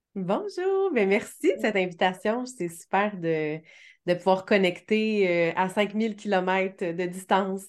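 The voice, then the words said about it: Canadian French accent. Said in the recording (French): “tu es au Canada ... sûrement dans ma voix aussi, dans mon accent ... Un petit avec l'accent.”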